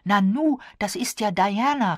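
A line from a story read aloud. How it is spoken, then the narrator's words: Surprised exclamation. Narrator (German): rief sie erstaunt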